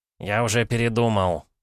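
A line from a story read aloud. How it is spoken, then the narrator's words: Grumbled mutter. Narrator (Russian): буркнул Виноград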